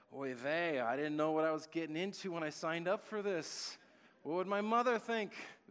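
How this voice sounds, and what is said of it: Deliberately bad put-on accent. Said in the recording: “There's my terrible accent.”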